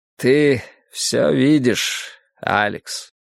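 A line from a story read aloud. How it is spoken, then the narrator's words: Sigh. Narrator (Russian): вздохнул ангел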